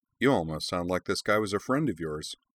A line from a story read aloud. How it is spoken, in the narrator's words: Makra remarked dryly